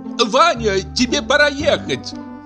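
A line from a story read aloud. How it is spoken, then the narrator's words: Shouted from another room. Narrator (Russian): крикнула из другой комнаты учительша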